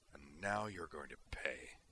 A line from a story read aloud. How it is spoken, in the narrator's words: Griffin snarled through his teeth